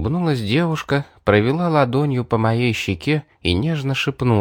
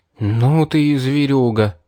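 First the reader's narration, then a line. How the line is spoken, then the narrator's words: Angry exhale. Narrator (Russian): выдохнул я со злостью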